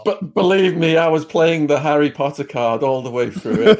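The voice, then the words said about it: British accent. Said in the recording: “this motherfucker with his British accent”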